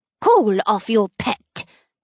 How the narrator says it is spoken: she sneers

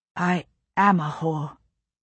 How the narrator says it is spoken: Jane said in a strange, dry voice

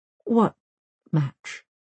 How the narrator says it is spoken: asks Britt Marie

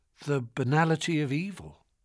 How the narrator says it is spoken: I murmured

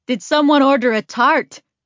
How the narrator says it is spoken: he shouts into the house

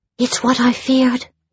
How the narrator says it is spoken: whispered Genevieve

